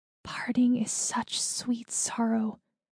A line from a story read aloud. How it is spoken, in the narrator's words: Daisy Chain whispered